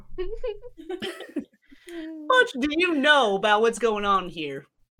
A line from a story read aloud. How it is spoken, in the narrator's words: Leon laughs